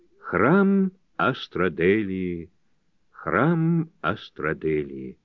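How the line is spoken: Chanting. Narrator (Russian): она нараспев произнесла

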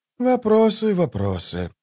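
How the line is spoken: Sigh. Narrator (Russian): вздохнул Колот

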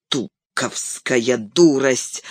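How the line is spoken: Annoyed grumble. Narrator (Russian): с досадой проворчал Гэндальф

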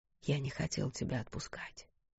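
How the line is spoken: Whisper. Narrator (Russian): прошептал

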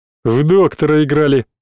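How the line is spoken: Deep bass voice. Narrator (Russian): пробасил Верзила Горев

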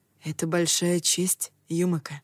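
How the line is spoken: Quiet. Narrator (Russian): тихо проговорил

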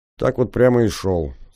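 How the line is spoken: Calm. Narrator (Russian): спокойно кивнул я

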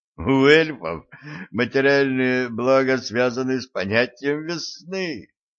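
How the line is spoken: Sobbing through laughter. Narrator (Russian): прорыдал сквозь смех Стас

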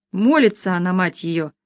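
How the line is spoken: Scornful snort. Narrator (Russian): Хмыкнул другой

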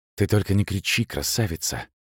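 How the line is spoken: Whispered in ear. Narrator (Russian): шепнул он в ухо

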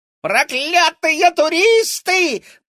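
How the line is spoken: Shriek. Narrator (Russian): завизжала она

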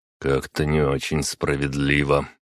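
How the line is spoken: Muttered under breath. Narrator (Russian): пробурчал я себе под нос

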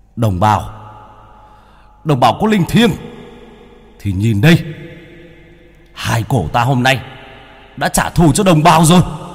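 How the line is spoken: Roar to the sky. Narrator (Vietnamese): Bác Cổ ngửa mặt lên trời mà gầm lên một tiếng

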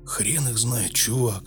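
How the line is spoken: Muttering. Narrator (Russian): пробормотал он

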